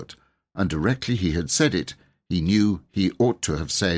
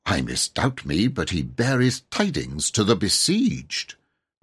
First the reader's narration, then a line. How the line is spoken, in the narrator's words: he added in a cautious undertone